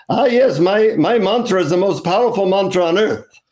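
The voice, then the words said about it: Indian accent guru voice. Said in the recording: “in an Indian accent, he says”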